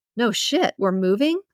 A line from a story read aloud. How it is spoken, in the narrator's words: He laughed